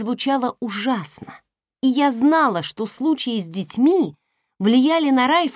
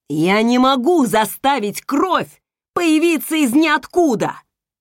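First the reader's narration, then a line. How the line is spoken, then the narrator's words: Barking. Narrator (Russian): рявкнул Райф медсестре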